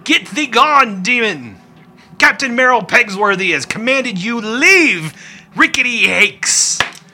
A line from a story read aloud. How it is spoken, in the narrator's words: he'll yell